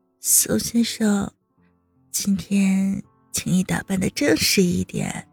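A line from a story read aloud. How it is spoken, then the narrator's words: Hoarse soft voice. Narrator (Chinese): 声音哑哑的道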